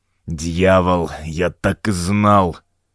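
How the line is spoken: Grumbling priest. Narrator (Russian): пробурчал священник

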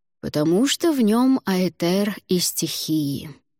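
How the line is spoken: Slow. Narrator (Russian): медленно проговорил Алвар

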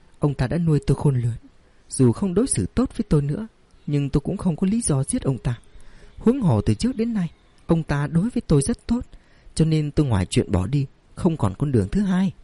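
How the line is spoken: Sighing. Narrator (Vietnamese): Ngải Giai cũng thở dài nói

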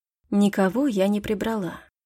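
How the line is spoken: Quiet. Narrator (Russian): тихо ответила Лидия

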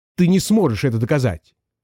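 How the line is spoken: Snapping male voice. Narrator (Russian): огрызнулся он

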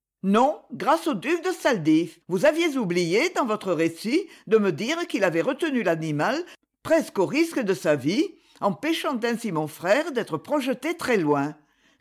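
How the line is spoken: Curt retort. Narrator (French): répliqua-t-elle sèchement

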